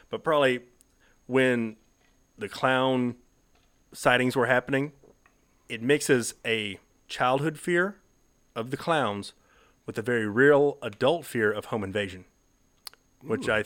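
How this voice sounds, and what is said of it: Heavy regional accent. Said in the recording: “Accent's kicking in real heavy here.”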